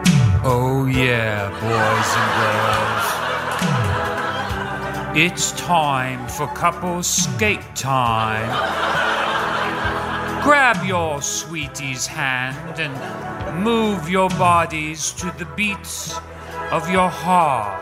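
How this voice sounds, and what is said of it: Announcer voice with put-on accent. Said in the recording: “Is ... doing an accent?”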